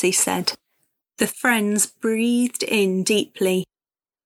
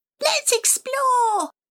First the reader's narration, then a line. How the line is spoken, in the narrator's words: shouted Alfie